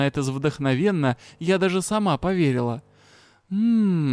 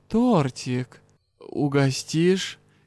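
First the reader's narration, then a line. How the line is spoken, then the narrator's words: Low, husky question. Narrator (Russian): низким хрипловатым голосом спросил мастер-старший следователь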